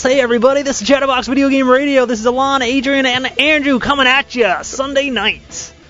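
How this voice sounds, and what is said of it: Put-on radio announcer voice. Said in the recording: “this is my raspy voice. ... Is that your radio voice? ... No, my radio voice is like this.”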